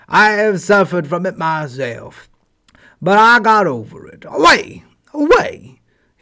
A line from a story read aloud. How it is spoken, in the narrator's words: he barked